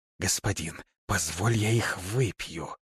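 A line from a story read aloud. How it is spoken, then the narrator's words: Hissed, losing patience. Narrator (Russian): Мордаиба не выдержала и прошипела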